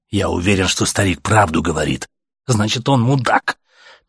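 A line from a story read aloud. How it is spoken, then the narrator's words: Angry. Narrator (Russian): Так же зло сказал ему Артем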